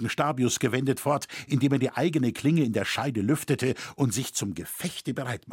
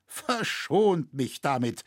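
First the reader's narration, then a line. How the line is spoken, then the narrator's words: Slurring exhausted poet. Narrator (German): lallte der Poet, fast nicht minder erschöpft und angegriffen als dieser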